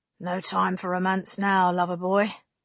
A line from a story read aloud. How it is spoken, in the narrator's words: she said dryly